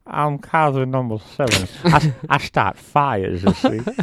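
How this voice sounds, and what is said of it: Imitates another person's voice. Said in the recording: “That's a good Bill Cosby impression.”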